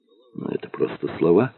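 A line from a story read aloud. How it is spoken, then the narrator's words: Gentle objection. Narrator (Russian): мягко возразил Купцевич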